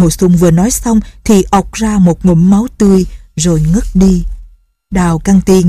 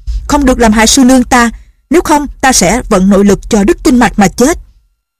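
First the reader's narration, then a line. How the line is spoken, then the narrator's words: Urgent loud shout. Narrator (Vietnamese): Lệnh Hồ Xuân thấy sư nương lâm vào tình thế nguy hiểm, hắn vội quát to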